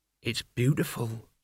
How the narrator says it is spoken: said Mort softly

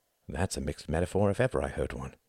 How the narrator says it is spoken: murmured Wendy, but only Tom heard her

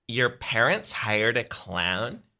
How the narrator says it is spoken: She asks in a snotty voice

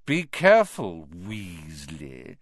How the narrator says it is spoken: sneered Malfoy

